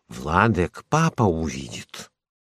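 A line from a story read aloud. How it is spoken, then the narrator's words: Whisper. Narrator (Russian): шепот Кази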